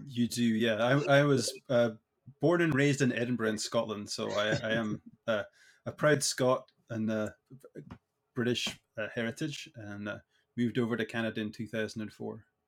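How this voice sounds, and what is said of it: Scottish accent. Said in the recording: “I do detect an accent.”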